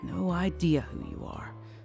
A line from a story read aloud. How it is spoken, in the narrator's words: I murmured